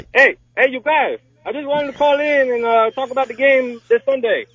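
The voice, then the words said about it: Attempted Boston accent, sounds Hispanic. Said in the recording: “my best Boston accent ... so Hispanic ... I was going to go like Indian maybe”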